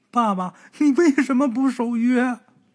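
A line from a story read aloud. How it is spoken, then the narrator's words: Sobbing child. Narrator (Chinese): 儿子哭得很伤心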